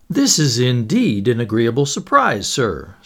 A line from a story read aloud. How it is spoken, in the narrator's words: said the manager cheerfully